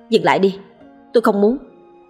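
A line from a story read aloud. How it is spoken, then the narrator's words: Snapping irritably. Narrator (Vietnamese): Quanh gắt lên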